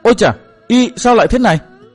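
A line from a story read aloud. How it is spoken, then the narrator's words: Shocked cry. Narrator (Vietnamese): Mai Lãnh Tuyết cả kinh kêu lên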